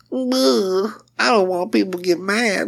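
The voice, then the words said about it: Imitates another person's voice. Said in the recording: “Pretty good impression.”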